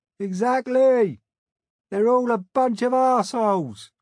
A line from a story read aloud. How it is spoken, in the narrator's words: close by, a lonesome voice hollered